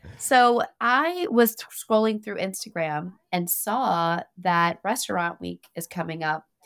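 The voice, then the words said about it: Voice sounds off, possibly husky. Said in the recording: “my voice is stupid. Hopefully it sounds sexy”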